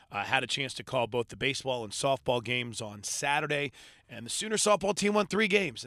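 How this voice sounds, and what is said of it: Hoarse, strained voice. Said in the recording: “I am losing my voice”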